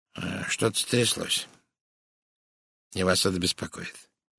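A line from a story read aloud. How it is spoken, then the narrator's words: Gentle. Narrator (Russian): мягко сказал он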